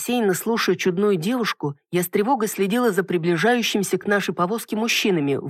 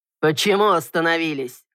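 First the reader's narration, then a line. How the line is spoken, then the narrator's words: Man's irritated growl. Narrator (Russian): раздраженно рыкнул мужчина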